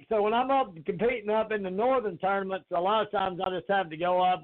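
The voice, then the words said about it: Southern US accent. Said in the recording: “this accent ... southern accent I can't shake”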